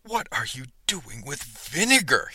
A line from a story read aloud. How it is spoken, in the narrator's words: he spluttered